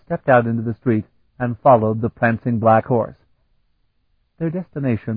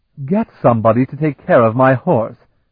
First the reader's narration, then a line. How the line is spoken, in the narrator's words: the Aline snapped